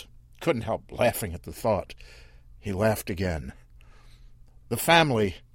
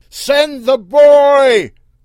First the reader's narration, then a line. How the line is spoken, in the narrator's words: Earl yelled